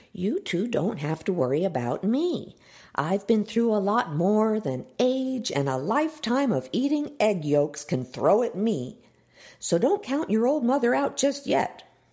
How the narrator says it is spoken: Miss Ellie pressed in the sweetest mom tone she could muster

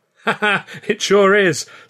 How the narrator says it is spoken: cried

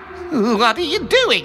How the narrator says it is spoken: He exclaimed

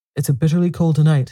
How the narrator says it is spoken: said Mrs

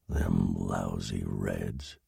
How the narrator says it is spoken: he whispered

